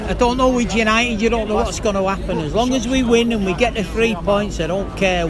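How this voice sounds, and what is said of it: Strong Manchester accent. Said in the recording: “accent ... The most Manchester accent in the world.”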